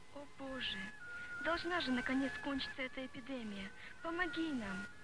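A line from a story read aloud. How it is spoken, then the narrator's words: Desperate pleading prayer. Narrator (Russian): Взмолилась она, когда узнала, что в школе умер уже 10-й человек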